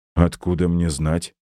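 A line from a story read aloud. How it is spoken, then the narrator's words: Dry. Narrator (Russian): сухо спросил я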